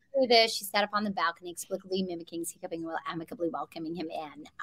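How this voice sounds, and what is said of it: Exaggerated American accent tongue twister. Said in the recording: “your American accent ... I exaggerate basic, like the American sound, with a few sort of tongue twisters”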